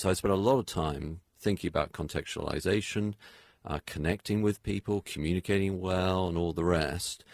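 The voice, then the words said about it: Non-local accent. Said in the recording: “as you can tell from my accent, I'm not from around these parts”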